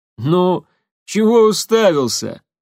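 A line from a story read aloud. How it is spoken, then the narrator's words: Chuckling. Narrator (Russian): снова хохотнул Тамир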